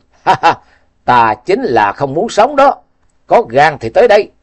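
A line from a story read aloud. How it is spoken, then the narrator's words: Loud laughing. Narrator (Vietnamese): Tạ Hoành Chí cười lớn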